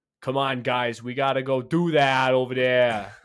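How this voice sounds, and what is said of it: Imitates an inconsistent Boston accent. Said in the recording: “sliding all over an accent ... he said that he was from Boston”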